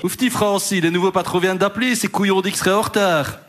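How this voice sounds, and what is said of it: Weak put-on Liège accent. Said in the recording (French): “accent de Liège? ... je ne sais pas faire l'accent liégeois ... C'est entre Liège et Bruxelles”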